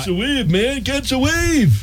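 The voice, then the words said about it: Surfer dude voice. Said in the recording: “his Surfer Dude impression”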